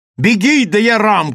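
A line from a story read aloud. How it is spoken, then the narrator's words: Shouted. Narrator (Russian): крикнула Нарендра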